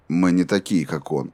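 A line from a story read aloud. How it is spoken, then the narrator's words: Even, steady voice. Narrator (Russian): ровным голосом ответил Роланд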